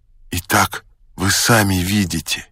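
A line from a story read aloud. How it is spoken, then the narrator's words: Forced firm, strained smile. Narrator (Russian): сказал я, сколько мог, твердым голосом и с принужденной усмешкою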